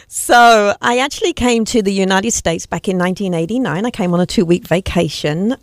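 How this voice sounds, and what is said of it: English accent. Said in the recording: “with that accent, you're going to have to tell us where you're from”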